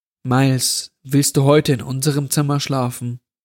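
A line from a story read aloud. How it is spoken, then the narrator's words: Plain question. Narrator (German): fragte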